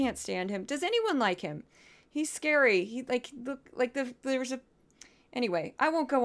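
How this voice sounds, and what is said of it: Usual voice. Nothing is said of it.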